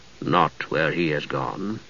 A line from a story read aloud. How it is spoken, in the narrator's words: he said softly